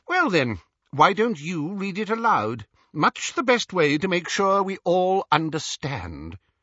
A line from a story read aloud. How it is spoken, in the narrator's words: inquired Xenophilius sharply